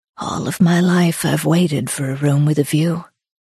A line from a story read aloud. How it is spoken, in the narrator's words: more quietly she said